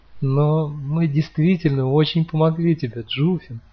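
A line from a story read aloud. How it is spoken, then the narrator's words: Explained through laughter. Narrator (Russian): сквозь смех объяснила Манта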